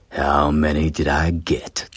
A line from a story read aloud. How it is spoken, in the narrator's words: Tane sneered at them and said